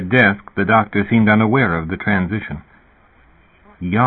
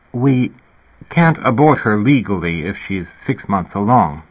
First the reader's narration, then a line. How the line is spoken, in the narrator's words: the doctor said hesitantly